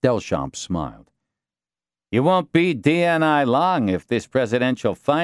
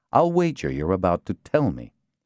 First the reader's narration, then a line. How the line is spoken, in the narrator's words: Montvale said icily